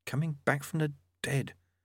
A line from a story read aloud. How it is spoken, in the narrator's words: Lobsang murmured